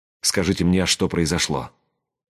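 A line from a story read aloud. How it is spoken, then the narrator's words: Quiet command. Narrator (Russian): Тихо велел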